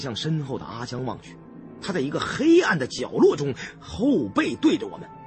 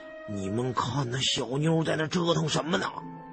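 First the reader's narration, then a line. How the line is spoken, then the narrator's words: Suddenly low voice. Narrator (Chinese): 胖子突然压低了声音对我和山瑞阳说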